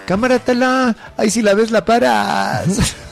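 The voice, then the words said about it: Put-on Mexico City chilango accent. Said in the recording (Spanish): “Es que todo es más divertido en acento chilango.”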